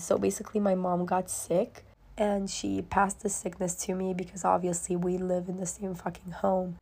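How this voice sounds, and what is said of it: Very quiet, raspy, nearly lost voice. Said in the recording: “I lost my voice almost completely ... I did have a raspy voice, but it does not compare to the voice that I have right now ... when I speak really quietly, like now, you can barely fucking hear”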